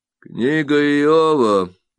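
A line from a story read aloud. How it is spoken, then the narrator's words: Grim voice from darkness. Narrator (Russian): мрачно говорит кто-то из темноты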